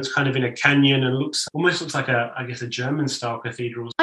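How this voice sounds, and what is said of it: Australian accent. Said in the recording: “I can hear your Australian accent”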